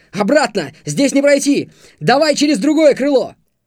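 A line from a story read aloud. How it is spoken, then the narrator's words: Shouting. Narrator (Russian): крикнул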